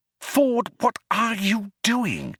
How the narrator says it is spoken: he asked in an amazed whisper

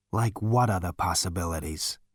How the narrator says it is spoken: He said wearily

